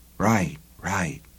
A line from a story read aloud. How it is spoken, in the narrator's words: the cop breathed